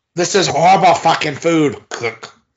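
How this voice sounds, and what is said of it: Gordon Ramsay impression, British accent. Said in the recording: “clean shaven as Gordon Ramsay ... was that a British accent you were doing there? ... I kind of lost the thread halfway through.”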